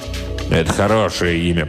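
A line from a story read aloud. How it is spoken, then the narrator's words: Impatient grumble. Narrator (Russian): проворчал барон, выдавая нетерпение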